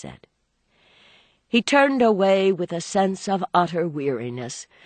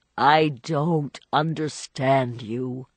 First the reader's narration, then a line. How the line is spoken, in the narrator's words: Archer groaned out again